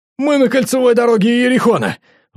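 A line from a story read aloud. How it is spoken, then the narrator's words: Squealing. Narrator (Russian): взвизгнул Андрюха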